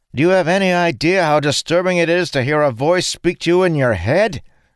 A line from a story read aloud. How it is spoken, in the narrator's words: Sane called out to them